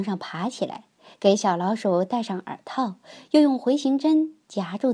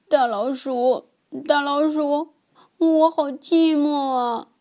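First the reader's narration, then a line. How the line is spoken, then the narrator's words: Crying. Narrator (Chinese): 它哭了起来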